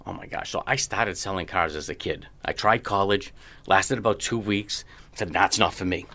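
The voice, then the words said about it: East Boston accent. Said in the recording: “East Boston originally ... You can tell by the accent kind of dripping away. It's gone, right? ... It has not left you. Not at all.”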